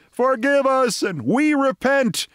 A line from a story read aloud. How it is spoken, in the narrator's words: simultaneously, screaming